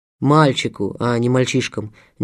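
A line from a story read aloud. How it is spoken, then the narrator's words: Oddly angry correction. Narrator (Russian): непонятное зло поправил Шевченко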